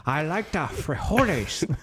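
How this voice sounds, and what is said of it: Bad put-on Mexican accent. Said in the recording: “You're the worst of the accents.”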